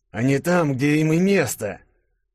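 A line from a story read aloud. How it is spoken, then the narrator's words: Angry, through gritted teeth. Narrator (Russian): зло процедил сквозь зубы монарх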